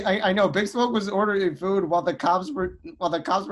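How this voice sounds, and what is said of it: Usual voice. Nothing is said of it.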